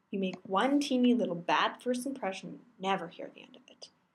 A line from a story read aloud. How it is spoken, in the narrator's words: Mostly to himself, mutters on